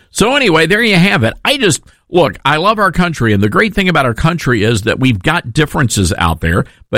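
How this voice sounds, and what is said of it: Tennessee twang blended with New Orleans accent. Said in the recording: “my Tennessee twang sort of melded with that New Orleans accent”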